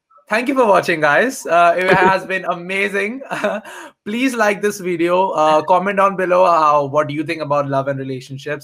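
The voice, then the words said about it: Speaks with a noticeable accent. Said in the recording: “his beautiful, beautiful accent”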